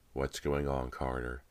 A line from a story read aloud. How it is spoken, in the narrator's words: he asked quietly